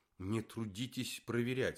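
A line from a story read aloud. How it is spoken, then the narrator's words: Irritated. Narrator (Russian): сказал Лев Абрамович раздраженно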